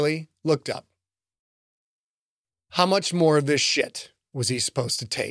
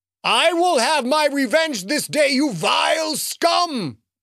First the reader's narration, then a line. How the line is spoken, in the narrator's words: the booming voice called